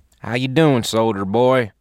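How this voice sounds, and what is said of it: Southern American accent. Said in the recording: “a southern accent”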